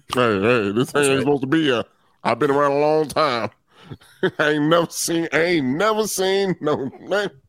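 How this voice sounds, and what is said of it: Put-on southern accent, squirrel character voice. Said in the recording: “your impersonation of the squirrel ... the squirrel's internal monologue ... Squirrel got some southern black person accent”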